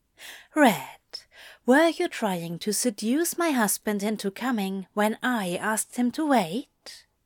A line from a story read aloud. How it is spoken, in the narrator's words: Zira asked calmly